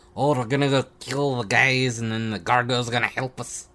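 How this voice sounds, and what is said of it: Put-on accent, done well. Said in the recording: “I like that accent. ... It's really good.”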